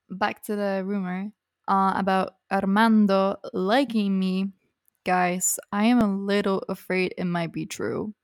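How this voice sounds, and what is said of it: Accent wavering unusually. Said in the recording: “my accent is going a little crazy today”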